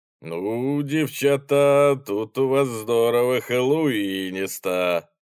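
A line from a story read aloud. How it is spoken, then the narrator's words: Drawling. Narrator (Russian): протянул он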